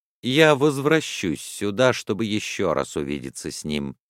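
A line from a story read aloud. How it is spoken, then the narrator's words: Calm. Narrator (Russian): спокойно проговорил Филиас Фок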